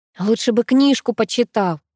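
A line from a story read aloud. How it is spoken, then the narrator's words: Grumbling woman. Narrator (Russian): снова проворчала я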